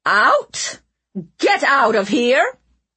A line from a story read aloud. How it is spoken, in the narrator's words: Leona barked